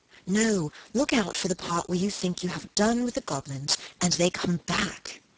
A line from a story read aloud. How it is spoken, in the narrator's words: breathed Helen